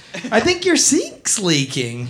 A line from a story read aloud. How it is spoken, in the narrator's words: he says